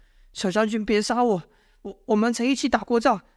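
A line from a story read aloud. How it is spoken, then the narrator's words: Begging. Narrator (Chinese): 求哀求道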